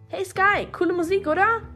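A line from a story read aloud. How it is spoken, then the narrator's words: Woman calling over noise. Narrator (German): rief sie mir über den Lärm hinweg zu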